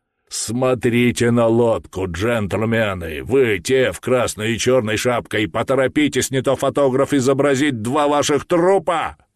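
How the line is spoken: Thunderous bark. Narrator (Russian): громовой голос позади нас рявкнул

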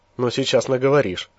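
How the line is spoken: Short laugh. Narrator (Russian): хохотнул Лемур

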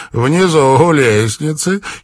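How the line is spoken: Giggling. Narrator (Russian): хихикнула Афат

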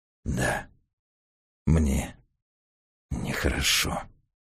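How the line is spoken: Through gritted teeth. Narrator (Russian): сквозь зубы ответил Раст Петрович

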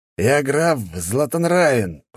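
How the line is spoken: Growl over phone. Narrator (Russian): прорычал идиот в телефоне

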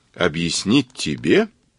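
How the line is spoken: Sinister drawl, ghostly laugh. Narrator (Russian): Зловеще протянул Кацуба и захохотал, словно привидение

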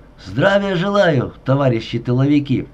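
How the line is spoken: Loud cheerful shout. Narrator (Russian): не расставаясь со своим настроением, он громко и весело крикнул

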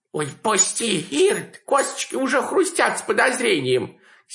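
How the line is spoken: Hoarse pleading. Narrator (Russian): сипло взмолилась Яга

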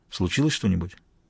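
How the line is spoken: Quiet question. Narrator (Russian): тихо спросил

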